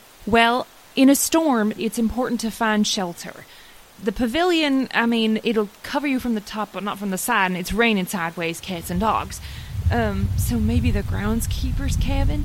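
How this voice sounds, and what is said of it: Southern American accent. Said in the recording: “I almost slipped into your accent, too. I don't know what it is about stress and Southern”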